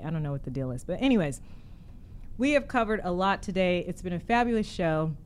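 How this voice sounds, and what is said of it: Hoarse, sore-throated voice. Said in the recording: “I have a sore throat today”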